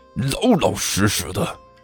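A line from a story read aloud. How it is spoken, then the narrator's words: Stung, low growl. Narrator (Chinese): 傅晨顿时像是被踩了尾巴一样，低声咆哮了一句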